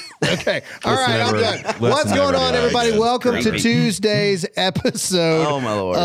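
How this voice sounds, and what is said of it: Usual voice. Nothing is said of it.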